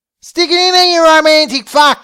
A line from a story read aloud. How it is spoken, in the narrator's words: she yelled